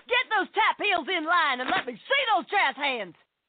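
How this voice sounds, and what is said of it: Drill instructor barking orders. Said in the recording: “my impression of a drill instructor directing a musical”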